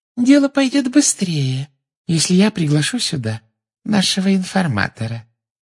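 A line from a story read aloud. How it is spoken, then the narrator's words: Silky sweet voice. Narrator (Russian): шелковым голоском сказала из-за его спины Амбридж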